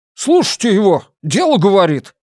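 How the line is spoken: Shopkeeper exclaiming. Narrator (Russian): воскликнул хозяин магазина

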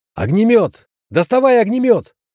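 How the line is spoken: Shout. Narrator (Russian): выкрикнул

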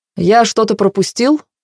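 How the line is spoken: Cheerful question. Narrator (Russian): поинтересовался весело

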